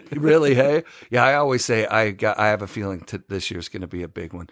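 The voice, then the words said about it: Canadian accent. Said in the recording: “bust out a little Canadian... I've been waiting for the hey... where's your accent?”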